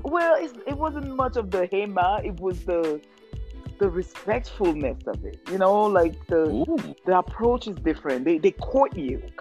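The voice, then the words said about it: African French-accented English. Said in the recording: “my first language is French. So you hear an accent ... you sound like you're Jamaican ... completely African with a French accent”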